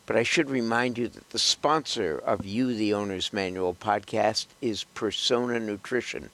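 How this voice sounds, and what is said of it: Slightly hoarse voice. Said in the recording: “I'm a little hoarse because of allergy season ... am a little more hoarse than I'd like to be”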